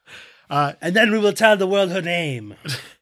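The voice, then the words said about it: Bad put-on French accent. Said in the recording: “I did not do a good French accent. ... No, it was bad. It was bad.”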